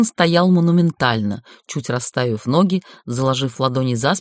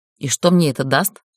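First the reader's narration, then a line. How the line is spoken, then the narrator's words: Irritated. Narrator (Russian): раздраженно дернул я плечом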